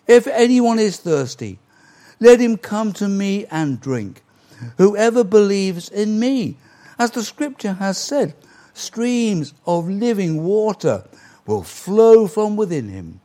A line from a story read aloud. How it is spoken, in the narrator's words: Jesus stood and cried in a loud voice